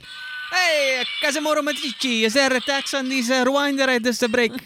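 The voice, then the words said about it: Put-on Italian accent. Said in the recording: “your impression is like a ... Sebastian Maniscalco a little bit ... Italian accent”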